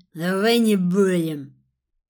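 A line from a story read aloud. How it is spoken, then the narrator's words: Rough interruption. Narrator (Russian): прервал он меня грубо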